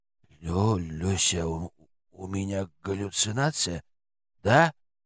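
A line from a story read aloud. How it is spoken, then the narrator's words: Whisper in ear. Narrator (Russian): прошептал на ухо парень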